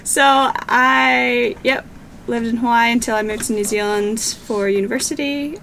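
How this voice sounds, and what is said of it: Mixed accent, sometimes taken for Canadian. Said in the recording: “I am sometimes mistaken as Canadian because my accent can get a little bit mixed up sometimes.”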